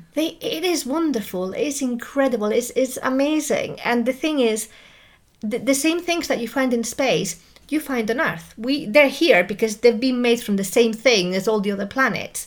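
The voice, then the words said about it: Excited, enthusiastic voice. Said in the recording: “you can probably hear it in my voice. I get really excited about it.”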